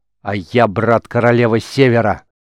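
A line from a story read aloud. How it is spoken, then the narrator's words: Furious growl. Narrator (Russian): зарычал в бешенстве Рис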